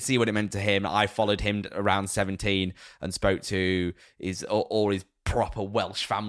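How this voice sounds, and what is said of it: Usual voice. Nothing is said of it.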